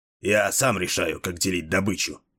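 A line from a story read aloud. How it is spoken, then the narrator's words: Grumble. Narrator (Russian): проворчал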